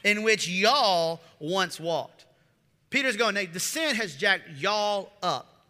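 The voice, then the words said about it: Put-on Southern country accent. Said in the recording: “I can't get back out of the country accent”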